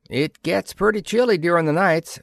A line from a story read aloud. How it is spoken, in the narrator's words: said Charlie happily